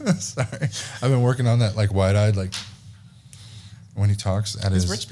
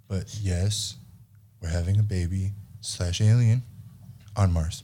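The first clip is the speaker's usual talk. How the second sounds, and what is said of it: Elon Musk impression. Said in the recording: “my Elon impression”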